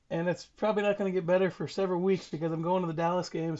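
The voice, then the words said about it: Strained, worn-out voice. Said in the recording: “my voice is a little bit special right now... coming off of a COVID situation, and then the game where you're screaming and whooping and hollering... you're probably going to hear me like this for a good while”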